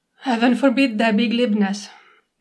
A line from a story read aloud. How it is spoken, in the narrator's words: Nightingale says, very dryly